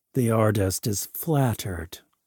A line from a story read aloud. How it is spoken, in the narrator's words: said coldly